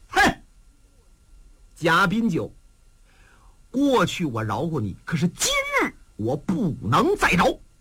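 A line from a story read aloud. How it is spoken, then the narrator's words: Cold sneer. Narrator (Chinese): 八月这小子冷笑一声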